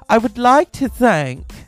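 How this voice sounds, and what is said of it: Imitates a fake British accent. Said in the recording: “fake British accent ... here's an example of that fake British accent that she has”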